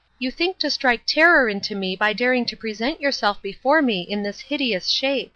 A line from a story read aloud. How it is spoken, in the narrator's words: cried the princess